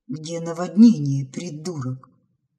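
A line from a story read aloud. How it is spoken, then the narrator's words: Grumble. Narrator (Russian): буркнула Розали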